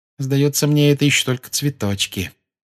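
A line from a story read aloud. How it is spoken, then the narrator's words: Gloomy remark. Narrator (Russian): мрачно заметила Гермиона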